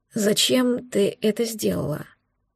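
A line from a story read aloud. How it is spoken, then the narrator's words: Hoarse sleepy question. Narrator (Russian): Хрипло после сна спросил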